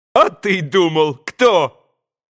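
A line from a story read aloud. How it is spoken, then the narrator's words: Loud joyful yell. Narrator (Russian): Звонким, счастливым голосом изо всей силы завопил Красоткин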